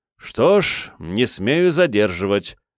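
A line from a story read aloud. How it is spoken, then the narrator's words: Disappointed sigh. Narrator (Russian): разочарованно вздохнул Якоб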